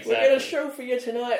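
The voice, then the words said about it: Stan Lee-style huckster showman voice. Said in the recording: “Is that your Stanley accent coming through? ... It was like a huckster trying to sell you the greatest story ever made.”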